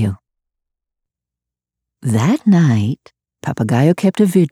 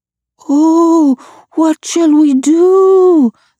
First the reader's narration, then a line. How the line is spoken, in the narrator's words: the night creatures moaned